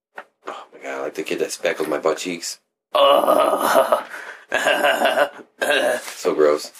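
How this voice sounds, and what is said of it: Cartoon character voice impression. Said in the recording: “That's my impression of Butthead. Or Beavis.”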